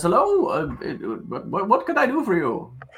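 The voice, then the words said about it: Gnome character voice, odd dialect. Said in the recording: “This is my voice now, I guess ... must be a different dialect ... That's a West End gnome.”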